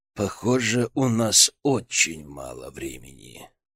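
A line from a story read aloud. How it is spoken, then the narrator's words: Quiet, feigned sadness. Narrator (Russian): Гроздин едва сдержал ухмылку, но вместо нее состроил печальную гримасу и тихо проговорил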